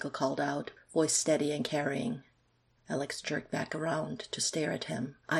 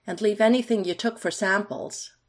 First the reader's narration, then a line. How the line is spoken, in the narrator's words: Michael called out, enunciating clearly